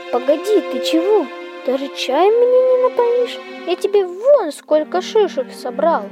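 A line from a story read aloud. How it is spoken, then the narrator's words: Sighing. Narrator (Russian): Пряник вздохнул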